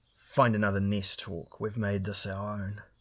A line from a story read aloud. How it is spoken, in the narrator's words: Elric growled